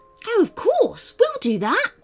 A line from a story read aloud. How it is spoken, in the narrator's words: blurted out Paxton before anyone else could answer